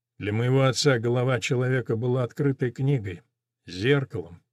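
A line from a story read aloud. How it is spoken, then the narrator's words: Sad. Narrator (Russian): печально проговорил Галь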